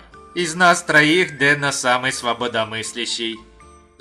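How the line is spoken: Choking back laughter. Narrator (Russian): Сдавил себе горло, борясь с хохотом Янь

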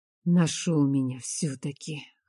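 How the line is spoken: Hoarse laughter. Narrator (Russian): хрипло смеется Бэр

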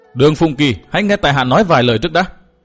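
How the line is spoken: Loud shout. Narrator (Vietnamese): Cố Kiếm Nam quát to

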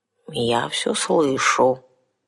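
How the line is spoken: Sleepy mutter, mercenary woman. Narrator (Russian): сонно пробормотала наемница

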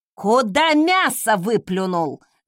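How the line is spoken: Yelled. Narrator (Russian): завопила Велла

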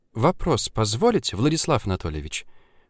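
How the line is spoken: Ingratiating question. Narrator (Russian): как-то вкрадчиво спросила Ульяна

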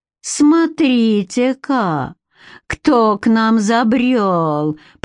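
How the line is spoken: Drawling. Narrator (Russian): протянул он

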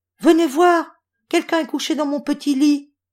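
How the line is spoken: Surprised baby bear exclaiming. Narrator (French): s'exclama bébé ours tout surpris

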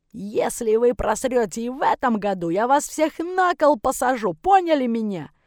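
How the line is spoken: Coach yelling, spluttering. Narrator (Russian): Орал тренер так, что слюни во все стороны летели

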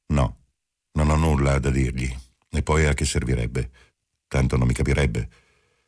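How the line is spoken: Cold voice. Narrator (Italian): Marcello disse con voce fredda

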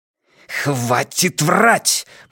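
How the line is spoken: Hissing. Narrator (Russian): прошипел Ван Эк

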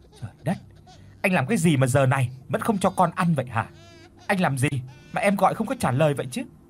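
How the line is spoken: Furious shouting woman. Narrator (Vietnamese): Không nén nổi cơn tức giận, cô quát hắn

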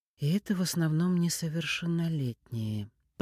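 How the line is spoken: Drawled. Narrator (Russian): протянула Чернова

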